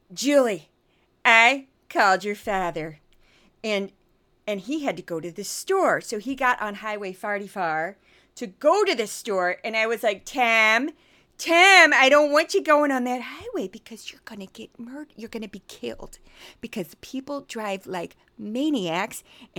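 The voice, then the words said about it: Missouri accent, imitating her mother. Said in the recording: “my accent is Missouri, and I'm going to just do my mom, who was very popular. I did this accent all throughout undergrad.”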